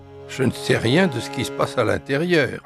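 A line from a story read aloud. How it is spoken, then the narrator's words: Plain. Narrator (French): répondit l'homme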